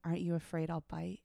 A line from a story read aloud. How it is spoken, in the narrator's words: said, whispering into my ear, her breath hot along my neck